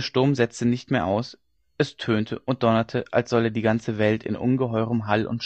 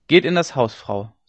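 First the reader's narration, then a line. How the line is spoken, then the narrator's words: Plain. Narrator (German): sagte John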